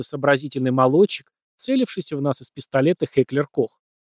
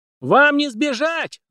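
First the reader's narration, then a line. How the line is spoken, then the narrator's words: Shrill scream. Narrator (Russian): завопил Визл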